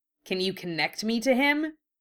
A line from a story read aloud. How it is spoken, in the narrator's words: he asked sharply